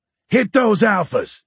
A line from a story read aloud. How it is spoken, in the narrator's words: he shouted